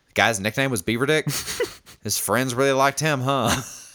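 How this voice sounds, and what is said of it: Slight southern accent. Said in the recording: “This like slight southern accent.”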